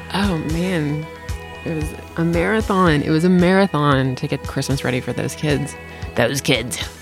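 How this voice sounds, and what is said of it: Tired, weary voice. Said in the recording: “now you can hear it in my voice. I'm so tired.”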